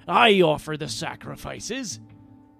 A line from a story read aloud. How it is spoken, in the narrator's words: Gangplank snarled